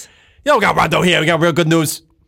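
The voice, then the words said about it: Imitation of another person's voice. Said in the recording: “is that an impression? ... Yeah, it was an impression.”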